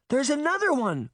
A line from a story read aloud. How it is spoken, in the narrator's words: Daphne cried